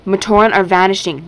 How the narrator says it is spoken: Likon continued urgently

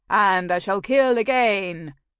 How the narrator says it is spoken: I intoned

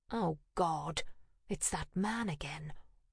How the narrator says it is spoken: muttered

